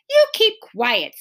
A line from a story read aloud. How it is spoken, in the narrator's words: snapped Beezus